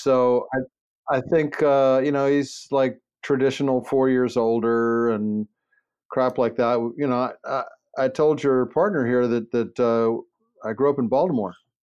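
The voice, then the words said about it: Baltimore accent. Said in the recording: “I just heard the accent. ... a Baltimore accent”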